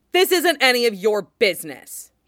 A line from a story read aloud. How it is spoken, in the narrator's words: he snaps